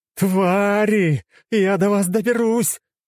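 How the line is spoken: Shouting. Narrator (Russian): кричала та

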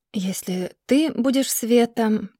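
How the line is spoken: Quiet. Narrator (Russian): тихо сказала она

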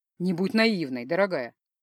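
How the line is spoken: Ironic snort. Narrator (Russian): Иронично хмыкнул темный эльф

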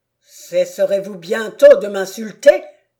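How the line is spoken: Man exclaiming. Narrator (French): s'écria-t-il

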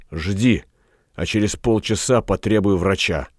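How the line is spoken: Whispered. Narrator (Russian): Галеран шепнув

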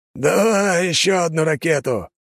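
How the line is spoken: Hoarse shout over machine noise. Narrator (Russian): хрипло крикнул Лажон, перекрывая грохот работающей на пределе машины

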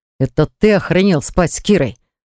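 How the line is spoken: Strained hiss while struggling. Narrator (Russian): прошипел, пытаясь перехватить руки сопротивляющегося противника

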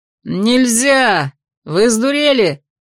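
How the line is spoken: Very loud shouting. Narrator (Russian): кричал Джет Фламер так громко, что слышно было даже здесь

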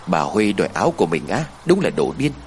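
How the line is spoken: Sudden muttering. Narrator (Vietnamese): Đột nhiên cô lẩm bẩm

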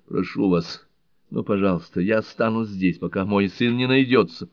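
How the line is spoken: Exclaiming. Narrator (Russian): Сьюзен воскликнула

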